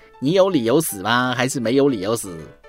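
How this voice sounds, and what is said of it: Cantonese-accented broken Mandarin. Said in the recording (Chinese): “一位广东本地口音的医生用蹩脚的普通话”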